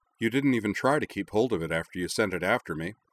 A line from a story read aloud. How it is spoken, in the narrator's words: she said